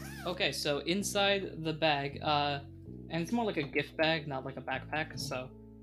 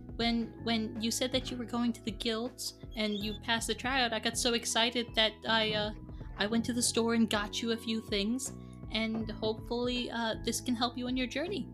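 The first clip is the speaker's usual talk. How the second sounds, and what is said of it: Character voice of a mom. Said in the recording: “I'm going to my default mom voice”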